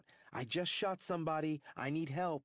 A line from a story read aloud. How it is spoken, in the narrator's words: him shout